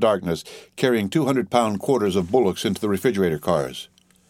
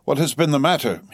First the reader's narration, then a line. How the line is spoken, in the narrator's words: cried anxiously